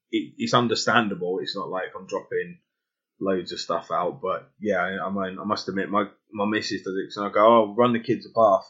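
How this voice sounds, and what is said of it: English accent dropping letters. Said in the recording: “With my accent, I tend to drop letters and add letters. So like proper, it would sound like I've taken the R away and put an A there.”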